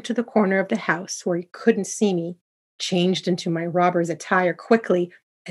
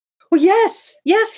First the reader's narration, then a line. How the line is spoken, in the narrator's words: he yelled